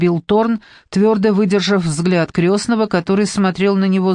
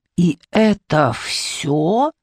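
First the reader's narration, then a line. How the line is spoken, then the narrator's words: Growling. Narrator (Russian): прорычал крестный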